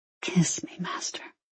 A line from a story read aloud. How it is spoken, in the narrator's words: she whispered back